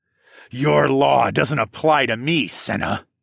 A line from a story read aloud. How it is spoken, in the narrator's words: snarled